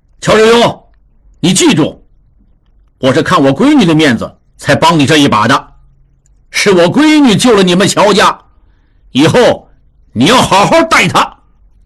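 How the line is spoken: Sudden call. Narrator (Chinese): 陆大可突然喊住他

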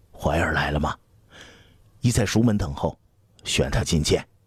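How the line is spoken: Quiet question. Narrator (Chinese): 刘彻 低声问

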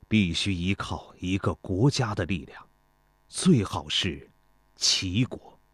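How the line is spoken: Deep, low voice. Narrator (Chinese): 孙膑沉声说

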